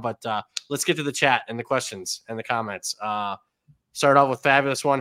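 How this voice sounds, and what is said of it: Slightly sick-sounding voice. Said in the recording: “if I sound, I am a little under the weather, to say the least. I even got my tea here. So if I lose my voice”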